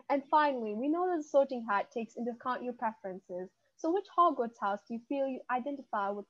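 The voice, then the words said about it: Put-on accent, poorly mixed. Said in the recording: “I have this accent. It's like mixing up with the ghetto accent. Like, it's kind of like very bad”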